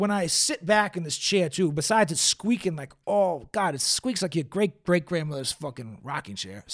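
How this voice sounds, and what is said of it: Usual voice. Nothing is said of it.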